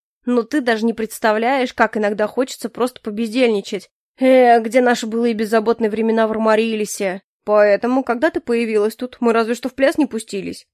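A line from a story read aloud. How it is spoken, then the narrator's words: Snorting. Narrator (Russian): хмыкнул Дельсон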